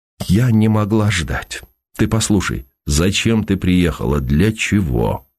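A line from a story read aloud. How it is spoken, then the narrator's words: Cold question. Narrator (Russian): спросил он холодно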